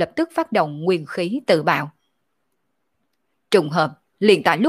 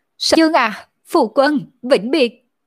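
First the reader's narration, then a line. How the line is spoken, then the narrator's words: Silent inner cry. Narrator (Vietnamese): Thiết Bộ Thiên ... trong lòng kêu lên nói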